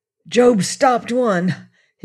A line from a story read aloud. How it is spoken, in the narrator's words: he cried, panting